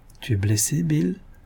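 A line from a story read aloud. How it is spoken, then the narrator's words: Worried murmur. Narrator (French): murmura-t-elle, inquiète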